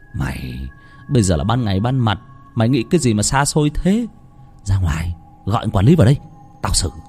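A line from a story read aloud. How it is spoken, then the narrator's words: Bossy big-brother tone. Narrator (Vietnamese): nói bằng giọng đàn anh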